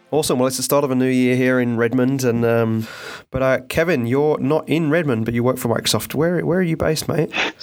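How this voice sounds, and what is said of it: English accent with Australian influence. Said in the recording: “I get a lot of grief for my accent. ... I'm originally from England and live in Australia and been in the States now for nearly 10 years”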